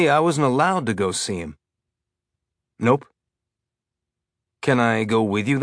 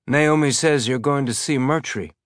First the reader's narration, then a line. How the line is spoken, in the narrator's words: Amos said, keeping his tone carefully neutral